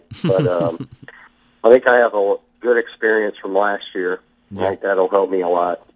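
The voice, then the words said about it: Hoarse voice. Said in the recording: “my voice is hoarse. I was screaming all night last night.”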